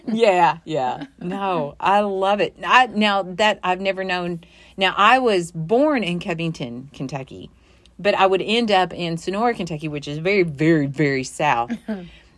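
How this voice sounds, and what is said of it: Noticeable Kentucky accent. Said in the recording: “she was talking about my accent ... I could listen to ... all day ... I don't think I have an accent ... Oh, my God, you do.”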